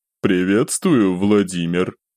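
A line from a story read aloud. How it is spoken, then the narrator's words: Older voice through speaker. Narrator (Russian): донеслось из динамика немолодым голосом на чистом английском языке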